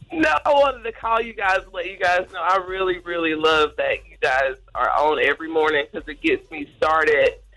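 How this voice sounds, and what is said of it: Congested, sick-sounding voice. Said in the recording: “I'm sick. I'm really congested.”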